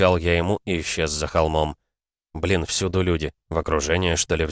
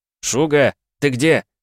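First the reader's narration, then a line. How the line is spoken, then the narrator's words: Shouting. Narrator (Russian): кричал я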